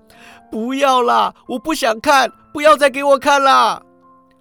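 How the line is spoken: Shouting. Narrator (Chinese): 石谷基喊道

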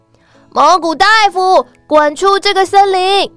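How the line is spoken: Sudden loud shout. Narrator (Chinese): 刺猬跟浣熊出其不意的大喊

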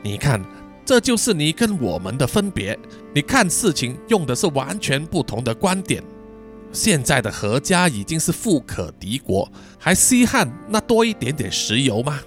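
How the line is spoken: Sad sighing uncle. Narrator (Chinese): 查理叔叔露出难过的表情啊，叹气说

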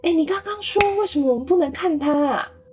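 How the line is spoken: Shouting. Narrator (Chinese): 他一边喊着

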